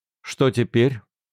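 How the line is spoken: Plain. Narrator (Russian): спросил он

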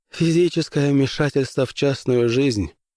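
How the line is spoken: Curt mutter. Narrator (Russian): буркнул Дин

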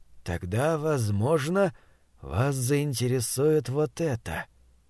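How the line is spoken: Very quiet. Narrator (Russian): очень тихо проговорил Этчем

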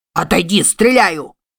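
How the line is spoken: Shouting. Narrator (Russian): крикнул Мик

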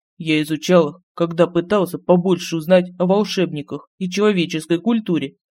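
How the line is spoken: Agitated mutter. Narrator (Russian): пробормотал в ответ Лорин, который был очень взволнован

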